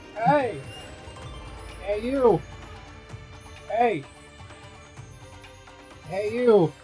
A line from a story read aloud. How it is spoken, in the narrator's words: I yell out